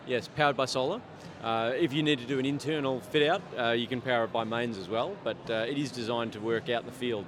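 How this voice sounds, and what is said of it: Australian accent. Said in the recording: “I'm getting a bit of a Southern Hemisphere accent coming through. Are you from Australia? ... Australia indeed.”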